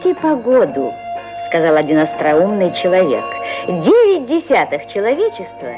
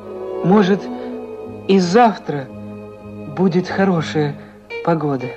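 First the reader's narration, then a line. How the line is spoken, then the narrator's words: Timid question. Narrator (Russian): робко спросил он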